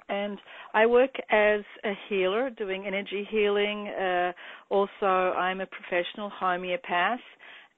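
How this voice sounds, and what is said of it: Australian accent. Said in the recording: “I am Australian, as you might notice from my accent,”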